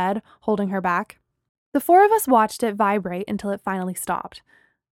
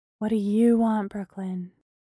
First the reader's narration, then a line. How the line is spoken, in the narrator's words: Bree asked gently